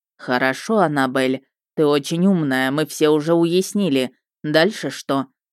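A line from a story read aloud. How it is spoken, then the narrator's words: Angry, through teeth. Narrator (Russian): процедила зло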